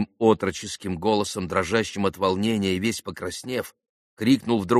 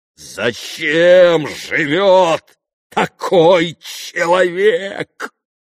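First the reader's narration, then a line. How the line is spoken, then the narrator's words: Muffled furious growl. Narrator (Russian): Глухо прорычал Дмитрий Федорович, почти уже в выступлении от гнева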